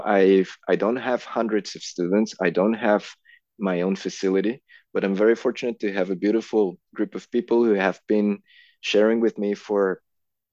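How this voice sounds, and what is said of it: Non-native English accent. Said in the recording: “plus like the whole language thing as well, people not understanding my accent ... I don't know how your accent was before, but you know, you communicate very, very, very clearly”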